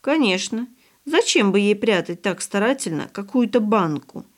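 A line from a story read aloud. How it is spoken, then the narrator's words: Thoughtful agreement. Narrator (Russian): согласилась задумчиво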